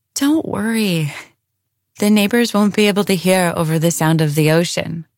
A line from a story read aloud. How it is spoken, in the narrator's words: Esme said, her words slightly slurred